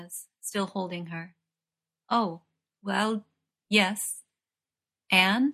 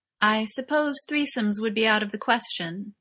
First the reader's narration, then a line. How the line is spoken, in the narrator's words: she asks, her tone as innocent as possible